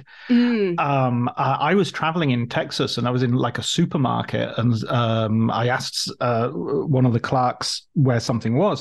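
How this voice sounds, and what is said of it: English accent. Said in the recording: “he heard my accent ... England”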